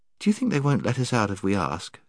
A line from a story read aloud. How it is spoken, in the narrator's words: said Jill